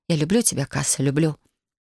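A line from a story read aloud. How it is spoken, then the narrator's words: Quiet repeated whisper. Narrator (Russian): его тихий голос, который вновь и вновь шептал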